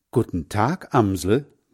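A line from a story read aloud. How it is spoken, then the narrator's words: Plain. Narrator (German): sagt Hans Frieder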